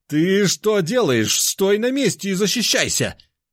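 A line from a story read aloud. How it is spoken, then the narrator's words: Yelling. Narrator (Russian): завопил он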